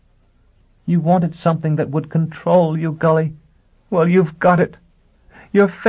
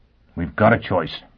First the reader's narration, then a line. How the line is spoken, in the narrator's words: he panted